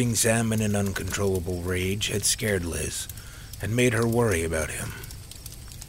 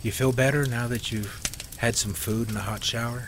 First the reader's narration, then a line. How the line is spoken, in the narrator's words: Carol asked